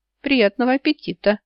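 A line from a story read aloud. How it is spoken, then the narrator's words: Cheerful wish. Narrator (Russian): весело пожелал темный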